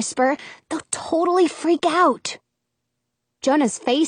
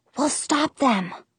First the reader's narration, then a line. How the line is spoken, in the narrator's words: I whisper promise